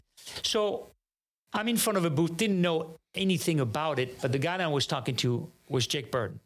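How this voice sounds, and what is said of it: French accent. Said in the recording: “he picked up on my accent right away ... I'm from France”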